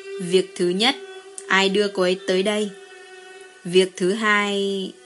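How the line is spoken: Amused, after laughing. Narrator (Vietnamese): Lăng Lạc Xuyên bật cười, rồi mới nói

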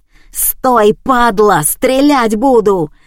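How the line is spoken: Bellowing guard chief. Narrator (Russian): заорал начальник охраны

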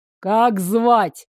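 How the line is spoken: Barely contained growl. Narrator (Russian): едва не закипая, прорычал

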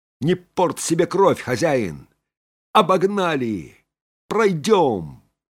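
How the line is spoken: Joyful shout. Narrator (Russian): Фанфан радостно крикнул

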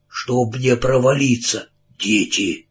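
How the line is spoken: Hoarse voice. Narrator (Russian): Хриплый голос сказал

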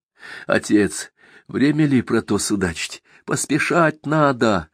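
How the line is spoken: Pleading, doubtful. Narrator (Russian): взмолился донат, снова впадая в сомнение

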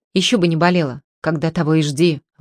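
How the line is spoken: Grumbling. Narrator (Russian): ворчал Кубышка

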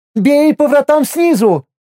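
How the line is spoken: Joyful shout. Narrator (Russian): обрадованно закричала Миром

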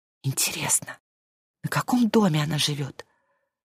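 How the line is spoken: Whispering. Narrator (Russian): шепотом сказала Маша

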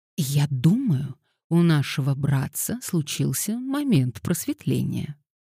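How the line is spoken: Theatrical whisper. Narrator (Russian): Феба произнесла театральным шепотом

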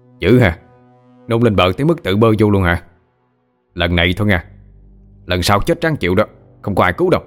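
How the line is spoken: Shouting. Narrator (Vietnamese): Tên bầm trợn quát lên

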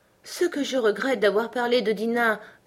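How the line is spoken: Melancholy voice to herself. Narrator (French): se dit-elle d'une voix mélancolique

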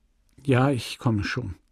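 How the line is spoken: Plain. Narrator (German): antwortete sie

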